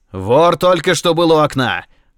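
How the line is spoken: Detective shouting. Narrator (Russian): крикнул сыщик

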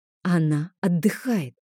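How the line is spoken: Hiss through teeth. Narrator (Russian): сквозь зубы зашипела я

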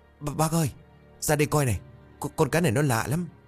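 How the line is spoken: Trembling. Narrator (Vietnamese): Tèo run rẩy

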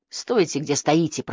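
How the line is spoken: Hiss. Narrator (Russian): прошипел он им

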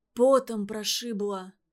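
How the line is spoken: Dull muffled sick voice. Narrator (Russian): ответил больной глухо

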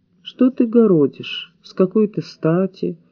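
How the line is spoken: Perfectly calm question. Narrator (Russian): совершенно спокойно спросил

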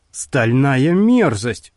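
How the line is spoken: Grumbled. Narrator (Russian): пробурчала Клара

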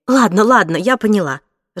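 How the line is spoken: Irritated. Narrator (Russian): раздраженно ответила

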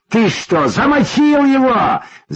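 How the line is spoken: Yelling. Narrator (Russian): заорал он на Болика

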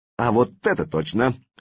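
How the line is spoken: Cheerful agreement. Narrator (Russian): весело поддержал Антифа Славка

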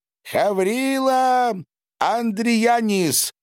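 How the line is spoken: Loud introduction. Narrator (Russian): громко представился человечек

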